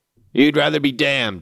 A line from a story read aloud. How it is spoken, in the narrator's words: he said